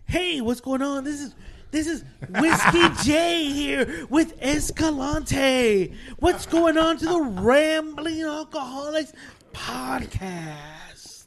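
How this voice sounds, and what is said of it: Mock radio host voice. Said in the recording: “I sounded like a radio host”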